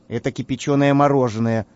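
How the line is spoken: Sigh. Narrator (Russian): вздохнул Карандаш

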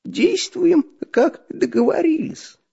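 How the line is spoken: Hoarse wheeze. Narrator (Russian): просипел Дырка

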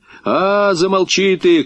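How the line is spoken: Shouting. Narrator (Russian): крикнул он

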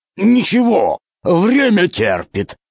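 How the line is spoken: Peaceable growl. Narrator (Russian): Миролюбиво прорычал Громозека

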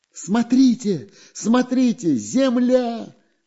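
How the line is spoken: Joyful shout. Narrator (Russian): радостно закричал Прутик

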